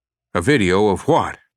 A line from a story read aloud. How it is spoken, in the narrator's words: Finch snapped